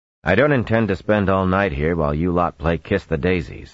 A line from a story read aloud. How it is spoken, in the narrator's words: he said